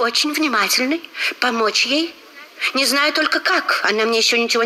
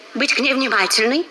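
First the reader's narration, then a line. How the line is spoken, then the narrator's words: Quick reply. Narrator (Russian): быстро ответила Розмери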